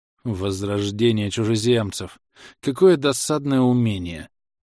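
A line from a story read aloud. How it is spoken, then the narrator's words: Burgomaster's sigh. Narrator (Russian): Вздохнул бургомистр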